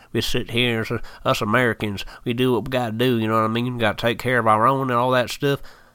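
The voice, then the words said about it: Put-on American country accent. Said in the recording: “I just went into a country accent”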